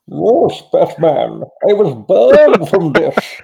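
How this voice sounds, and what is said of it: Bane impression with his accent. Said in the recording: “Oh, that accent.”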